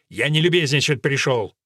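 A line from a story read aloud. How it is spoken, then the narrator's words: Rude reply. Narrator (Russian): грубо ответил Ральф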